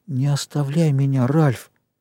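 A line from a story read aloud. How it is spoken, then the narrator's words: Pleading rustling whisper. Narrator (Russian): Сзади шуршал заклинающий шепот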